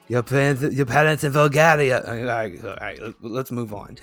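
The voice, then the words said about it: Bad put-on Bulgarian accent. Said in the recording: “the worst Bulgarian accent you'll ever”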